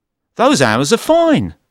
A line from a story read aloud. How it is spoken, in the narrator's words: I said happily